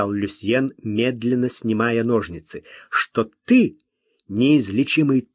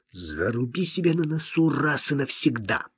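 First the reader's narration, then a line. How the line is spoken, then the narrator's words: Through gritted teeth. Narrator (Russian): процедил сквозь зубы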